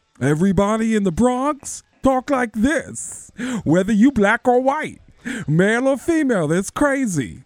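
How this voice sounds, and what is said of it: Thick Bronx accent. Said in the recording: “everyone in the Bronx has a really thick accent. Like, you know who Tracy Morgan is, right?”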